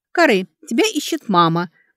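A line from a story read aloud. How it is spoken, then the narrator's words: Cheerful, smiling. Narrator (Russian): очаровательно улыбнулась, весело сказала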